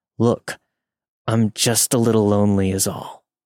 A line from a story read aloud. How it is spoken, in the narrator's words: Through gritted teeth, trying to mask his frustration, said